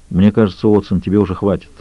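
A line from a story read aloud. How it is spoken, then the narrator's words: Calm. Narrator (Russian): спокойно произнес он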